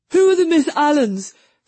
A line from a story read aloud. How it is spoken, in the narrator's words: Freddy panted